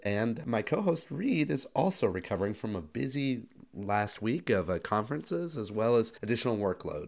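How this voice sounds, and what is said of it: Sick-sounding voice. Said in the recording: “As you can hear from my voice, I'm slowly recovering from my long illness.”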